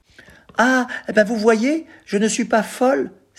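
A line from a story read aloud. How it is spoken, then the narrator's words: Very emotional exclamation. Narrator (French): s'écria Daisy, la dactylo, très émue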